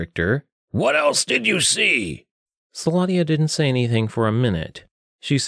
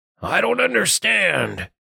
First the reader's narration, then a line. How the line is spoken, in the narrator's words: Richter grunted